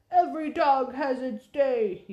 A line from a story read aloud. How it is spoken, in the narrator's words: he shouted